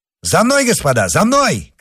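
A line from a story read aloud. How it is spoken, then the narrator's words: Shouted. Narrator (Russian): крикнул он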